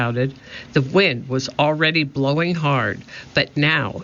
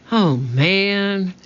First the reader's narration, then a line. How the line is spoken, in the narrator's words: Jack sighed